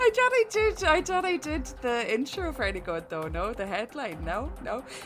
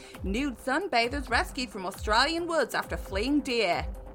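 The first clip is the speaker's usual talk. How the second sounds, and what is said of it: Put-on Australian accent. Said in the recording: “we've had this problem with Australian accents with you in the past. Can you please just say it in a normal accent?”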